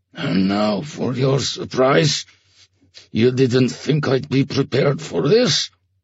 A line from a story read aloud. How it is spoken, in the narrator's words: He muttered